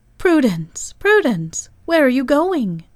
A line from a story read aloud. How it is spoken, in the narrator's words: cried they all with one voice